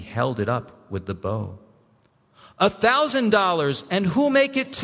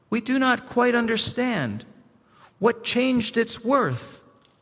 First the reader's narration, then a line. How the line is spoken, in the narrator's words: some of them cried